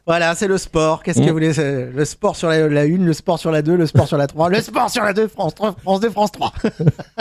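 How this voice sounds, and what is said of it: Imitates another person's voice. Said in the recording (French): “C'est une imitation de ... Gérard Holtz”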